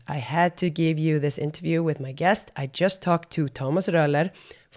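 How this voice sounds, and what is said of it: Hoarse, strained voice. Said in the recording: “As you can hear, my voice is still a little scrambled up”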